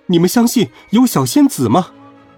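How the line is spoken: Calling out. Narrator (Chinese): 他伸出双手喊道

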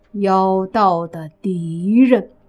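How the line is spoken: Slow, measured. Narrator (Chinese): 莫凡缓缓地说

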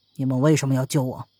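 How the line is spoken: Cold. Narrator (Chinese): 王三冷冷的，他说

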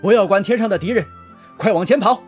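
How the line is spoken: Loud shout. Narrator (Chinese): 左权大喊

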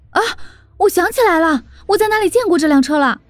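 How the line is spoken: Startled cry. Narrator (Chinese): 林阳 他惊叫道

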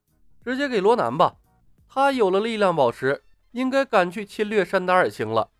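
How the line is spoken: Smiling. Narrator (Chinese): 李牧笑了笑，对梦姬说道

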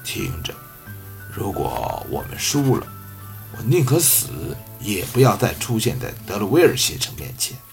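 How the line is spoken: Low voice. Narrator (Chinese): 阿多斯低声说

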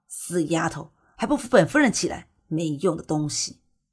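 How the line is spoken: Sharp, resentful. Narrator (Chinese): 被推倒在地上的柳夫人不甘心地……厉声道

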